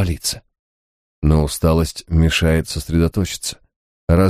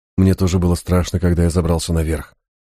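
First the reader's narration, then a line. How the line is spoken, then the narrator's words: Plain. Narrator (Russian): сказал Гай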